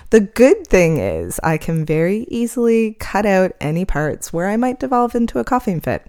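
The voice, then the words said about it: Scratchy voice. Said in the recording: “I am currently recovering from pneumonia, so my voice might be a little bit more scratchy than normal”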